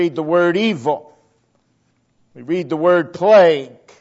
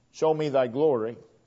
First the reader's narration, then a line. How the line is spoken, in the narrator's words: God said